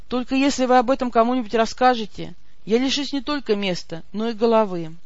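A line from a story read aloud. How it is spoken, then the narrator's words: Sad whisper. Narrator (Russian): поник и печально прошептал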